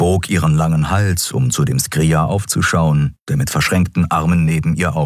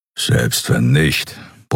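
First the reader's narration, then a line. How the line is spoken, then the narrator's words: Grumbling. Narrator (German): brummte er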